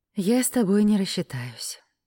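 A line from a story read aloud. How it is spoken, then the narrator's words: Sigh at the bill. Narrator (Russian): вздохнула я, увидев счет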